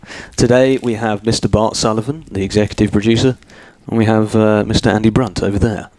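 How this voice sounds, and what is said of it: British accent. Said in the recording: “my British accent.”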